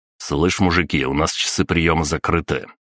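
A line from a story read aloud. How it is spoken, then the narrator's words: Cold. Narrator (Russian): холодно сказал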